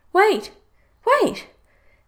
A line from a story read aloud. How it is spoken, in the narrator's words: cried the frog